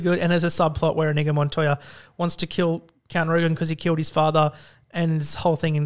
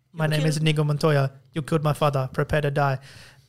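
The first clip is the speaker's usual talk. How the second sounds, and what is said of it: Half-hearted Inigo Montoya accent. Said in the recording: “You really didn't lean heavily enough into that accent ... I kind of pulled back like halfway in”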